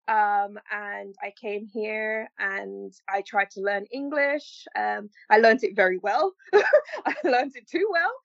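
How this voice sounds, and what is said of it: Mixed Jamaican and North American accent. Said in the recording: “This bizarre accent that you hear right now is as a result of me coming from Jamaica with a patois accent. ... now I sound like an American / Canadian / I don't know what.”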